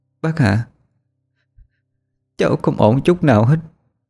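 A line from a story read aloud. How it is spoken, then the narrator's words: Choked, broken voice. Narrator (Vietnamese): Lệ đáp, giọng cô nghẹn ngào đứt quãng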